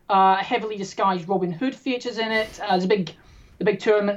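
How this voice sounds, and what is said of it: English accent. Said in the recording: “a town called Ashby de la Zouch down in the middle of England, and that's actually where I grew up, and that's where my English accent comes from.”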